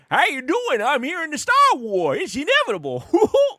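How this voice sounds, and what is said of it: Impersonated Mon Cal character voice. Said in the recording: “my impersonation of his”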